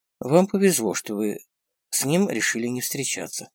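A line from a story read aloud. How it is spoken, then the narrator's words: Quiet. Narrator (Russian): тихо сказал Дронго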